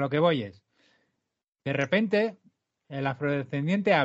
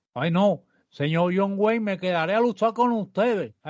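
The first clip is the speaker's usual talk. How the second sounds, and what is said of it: Stereotyped accent from dubbed films. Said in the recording (Spanish): “habla con el acento que le ponían en las películas dobladas ... ¡Qué voz, tío!”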